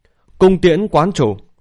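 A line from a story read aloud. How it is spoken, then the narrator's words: Loud cry. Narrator (Vietnamese): Lý Vân Hồng lớn tiếng kêu lên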